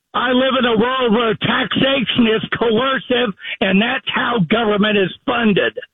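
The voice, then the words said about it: Yelling. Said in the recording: “What are you yelling at me for?”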